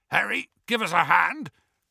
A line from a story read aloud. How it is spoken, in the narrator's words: called Hagrid hoarsely from the door in which he was stuck again